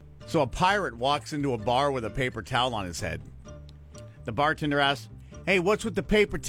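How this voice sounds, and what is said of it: Usual voice. Nothing is said of it.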